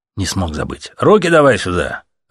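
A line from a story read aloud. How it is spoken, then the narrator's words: Barked. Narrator (Russian): рявкнули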